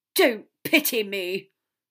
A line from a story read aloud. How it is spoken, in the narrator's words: snapped, so much more venomously than Severus deserved